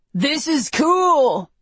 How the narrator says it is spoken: yells Mitch into my ear

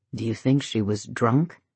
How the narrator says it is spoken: He asked him in a low voice

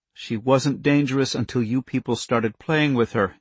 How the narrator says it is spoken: Andy said harshly

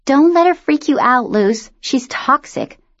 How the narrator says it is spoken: Dawn chirped

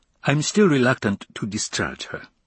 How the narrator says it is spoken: Ibarra said

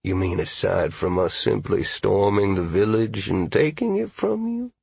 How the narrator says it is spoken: Graves said coolly

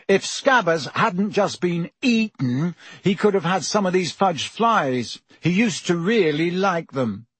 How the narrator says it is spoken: Ron chose that moment to say loudly

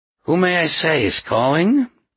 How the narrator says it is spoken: the concierge rasped

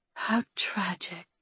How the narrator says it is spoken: I whispered, reading the rest

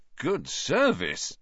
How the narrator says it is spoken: Ron said in an impressed voice

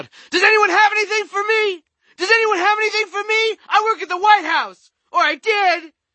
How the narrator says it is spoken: He started screaming aloud

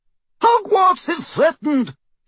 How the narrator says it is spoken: shouted Professor McGonagall

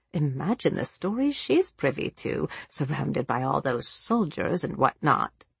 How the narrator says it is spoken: Jansen, an accomplished gossip, mumbled to herself

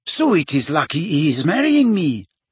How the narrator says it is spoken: said Fleur happily

